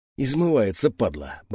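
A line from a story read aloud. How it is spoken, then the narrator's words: Muttering. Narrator (Russian): бормотнул Хряк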